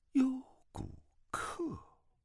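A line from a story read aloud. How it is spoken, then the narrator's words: Murmuring. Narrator (Chinese): 段正淳喃喃的道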